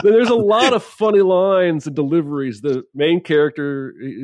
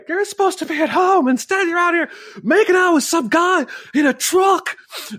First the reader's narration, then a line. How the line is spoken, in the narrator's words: he's screaming at her